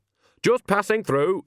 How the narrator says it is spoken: she said sharply

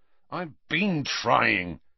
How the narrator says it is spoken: said Harry crossly

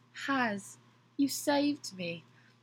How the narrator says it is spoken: Louis says weakly, as if being brought back to life

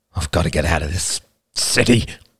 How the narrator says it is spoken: said, almost snarling

